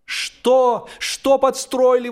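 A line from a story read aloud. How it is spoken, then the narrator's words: Exclaimed together. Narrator (Russian): воскликнули мы с Джорджем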